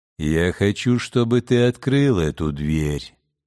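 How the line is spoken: Plain. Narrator (Russian): сказал Бог

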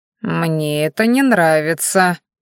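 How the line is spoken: Displeased drawl. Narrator (Russian): недовольно протянул Шидай

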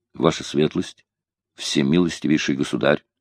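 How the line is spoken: Firm but sad. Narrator (Russian): ответил граф твердым, но печальным голосом

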